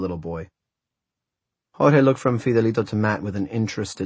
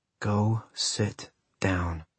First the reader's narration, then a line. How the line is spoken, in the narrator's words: Matt said in a low voice